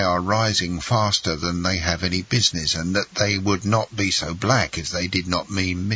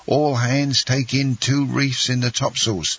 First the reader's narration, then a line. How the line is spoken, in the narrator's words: cried the captain